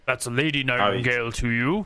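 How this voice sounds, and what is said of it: Deep character voice. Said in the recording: “he says with a deep voice.”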